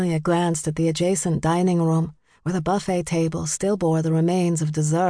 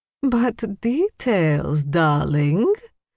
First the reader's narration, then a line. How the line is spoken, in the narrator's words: Magda cooed